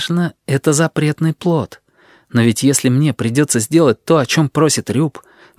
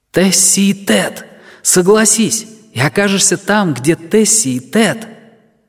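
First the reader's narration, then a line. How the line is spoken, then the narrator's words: Silent inner shout. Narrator (Russian): беззвучный голос в моей голове кричал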